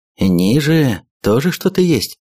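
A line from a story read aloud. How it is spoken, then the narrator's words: Plain. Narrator (Russian): спросил у него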